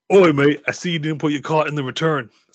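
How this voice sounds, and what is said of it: Imitates another person's voice, rough British accent. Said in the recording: “my Jason Statham impression ... He talks like that ... I can't do accents.”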